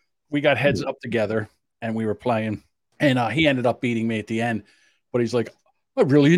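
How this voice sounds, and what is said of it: Usual voice. Nothing is said of it.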